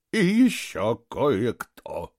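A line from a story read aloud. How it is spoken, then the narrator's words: Gloomy. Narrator (Russian): мрачно произнес Оскар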